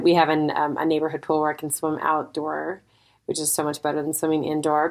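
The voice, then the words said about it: Nasal-sounding voice. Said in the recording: “I sound kind of nasal”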